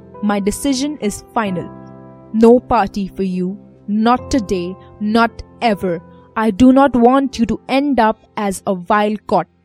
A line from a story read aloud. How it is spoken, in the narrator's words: She gives me a stern look and asserts firmly